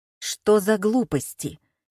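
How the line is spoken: Angry question. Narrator (Russian): сердито спросила Татьяна Михайловна

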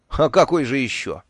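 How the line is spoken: Sighing. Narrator (Russian): вздохнул я

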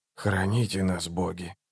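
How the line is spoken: Whispered. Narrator (Russian): прошептал Барук

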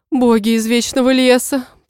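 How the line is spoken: Mother moaning. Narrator (Russian): простонала мама

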